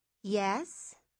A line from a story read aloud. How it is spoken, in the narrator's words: Lana said